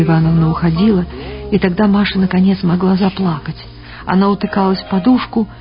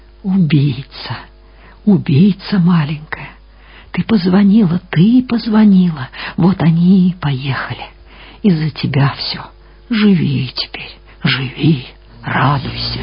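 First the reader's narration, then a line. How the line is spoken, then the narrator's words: Drawn-out clear whisper. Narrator (Russian): Вера Ивановна шептала протяжно и внятно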